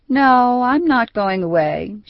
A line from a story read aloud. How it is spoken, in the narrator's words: she replied lazily